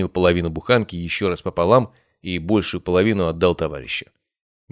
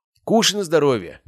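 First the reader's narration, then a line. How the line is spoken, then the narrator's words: Snorting. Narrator (Russian): хмыкнул Матвей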